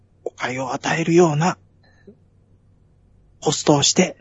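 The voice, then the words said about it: Whispering close to the mic. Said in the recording (Japanese): “耳元で。... ささやくように、”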